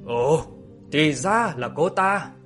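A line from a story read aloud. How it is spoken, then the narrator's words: Involuntary surprised exclamation. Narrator (Vietnamese): Chàng bất giác mà kêu lên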